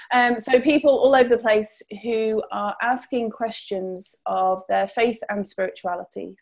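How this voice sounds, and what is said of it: Accent from over the pond. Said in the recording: “I have a slightly different accent. So I am over the pond”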